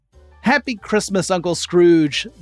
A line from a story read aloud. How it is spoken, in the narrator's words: the fool called out